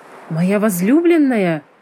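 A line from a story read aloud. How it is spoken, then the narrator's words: Exclaimed. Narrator (Russian): воскликнул он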